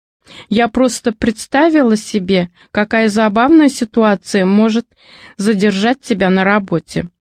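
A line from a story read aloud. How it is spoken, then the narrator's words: Laughing. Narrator (Russian): сквозь смех отвечала жена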